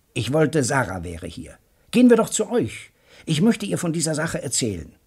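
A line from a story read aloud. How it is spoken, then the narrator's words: Calling out. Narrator (German): rief Joe Welling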